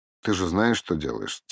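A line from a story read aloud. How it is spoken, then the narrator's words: Quiet question. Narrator (Russian): тихо спросил Сергей и Вячеслав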